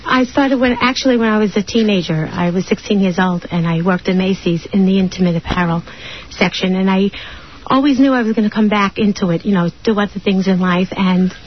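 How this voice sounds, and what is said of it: Nervous-sounding voice. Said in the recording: “You sound very nervous”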